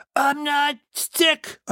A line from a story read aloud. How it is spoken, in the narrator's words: croak yelled